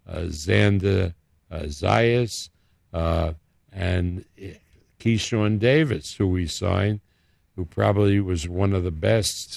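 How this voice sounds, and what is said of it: New York accent. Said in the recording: “you can tell my accent and I'm still in New York”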